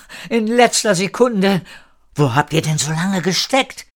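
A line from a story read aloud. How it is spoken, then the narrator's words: Called out. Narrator (German): rief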